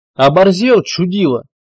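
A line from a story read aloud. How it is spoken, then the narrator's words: Roaring chorus. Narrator (Russian): Взревело сразу пять голосов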